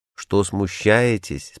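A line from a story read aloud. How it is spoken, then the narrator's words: Plain question. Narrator (Russian): спросил он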